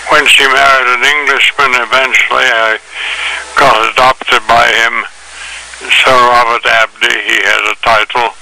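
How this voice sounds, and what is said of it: English accent. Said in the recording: “which accounts for my English accent”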